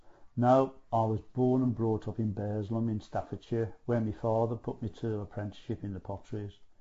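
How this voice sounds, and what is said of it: Regional English accent. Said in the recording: “You'll gather by my accent that I'm not from these parts.”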